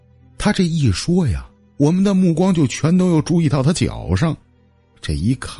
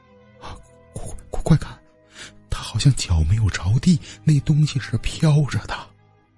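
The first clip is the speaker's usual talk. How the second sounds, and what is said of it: Quiet hushed voice. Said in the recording (Chinese): “小声的”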